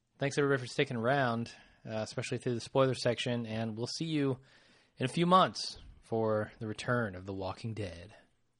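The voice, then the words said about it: Strained, failing voice. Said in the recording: “My voice is going anyway.”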